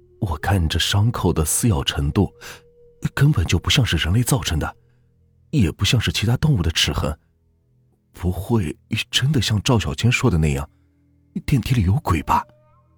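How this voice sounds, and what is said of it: Hushed, quiet speech. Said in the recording (Chinese): “小声道”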